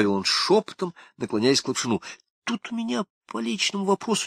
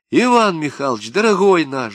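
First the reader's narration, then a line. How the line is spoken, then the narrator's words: Speaking while laughing. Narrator (Russian): заговорила, чему-то смеясь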